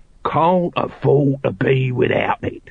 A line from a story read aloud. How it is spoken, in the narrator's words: he hissed